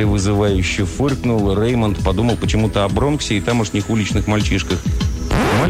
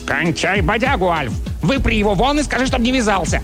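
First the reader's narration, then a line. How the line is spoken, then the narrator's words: Barked. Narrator (Russian): Чарли рявкнул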